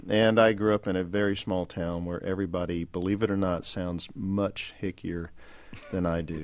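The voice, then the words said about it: Texas accent. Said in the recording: “the one with the Texas accent ... why do you have the Texas accent”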